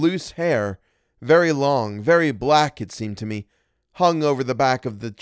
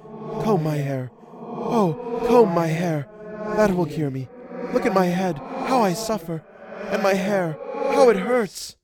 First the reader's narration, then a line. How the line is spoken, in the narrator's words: murmured